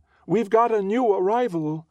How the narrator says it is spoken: shouts sing-song

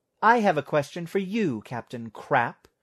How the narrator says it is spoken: snapped Vera

